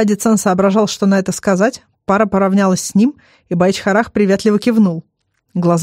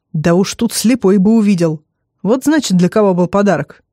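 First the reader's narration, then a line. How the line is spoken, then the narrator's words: Wry snort. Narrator (Russian): хмыкнул Адицан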